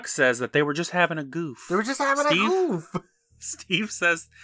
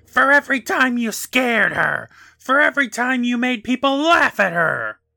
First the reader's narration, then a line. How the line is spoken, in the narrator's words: She yells